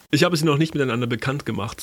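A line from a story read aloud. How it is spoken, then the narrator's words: Plain. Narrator (German): sagte Holmes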